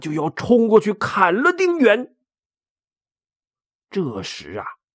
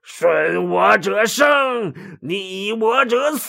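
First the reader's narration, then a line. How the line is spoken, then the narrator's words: Roaring. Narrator (Chinese): 董卓大吼道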